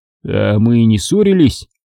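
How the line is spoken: Calm, surprised reply. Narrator (Russian): спокойно ответил я, удивляясь его неожиданному визиту

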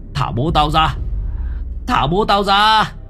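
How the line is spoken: Screaming. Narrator (Vietnamese): Ông Lưu gào thét

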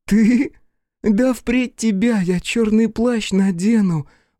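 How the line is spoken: Forced laugh. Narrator (Russian): выдавила смешок Ер

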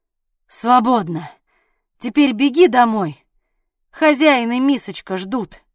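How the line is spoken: Exhaling, then speaking. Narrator (Russian): выдохнул и произнес

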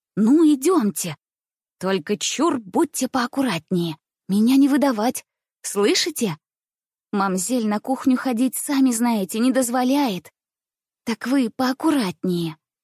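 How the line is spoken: Cheerful whisper. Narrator (Russian): весело шептала мне по пути Дуняша

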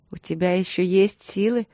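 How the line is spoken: Mocking question. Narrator (Russian): спросила я насмешливо

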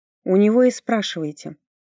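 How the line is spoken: Cold reply. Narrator (Russian): холодно ответила

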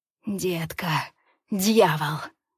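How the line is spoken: Hoarse wheeze. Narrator (Russian): Хрипит он

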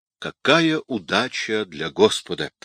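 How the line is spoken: Muttered. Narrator (Russian): пробормотал Павел

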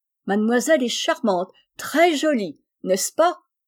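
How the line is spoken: Exclaiming in French. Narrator (French): s'écria en français Hortense

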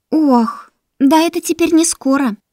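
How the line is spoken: Sighing. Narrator (Russian): вздохнула Кайта

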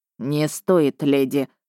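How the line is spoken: Hoarse dragon voice. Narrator (Russian): ответил синеглазый дракон неожиданно хриплым голосом

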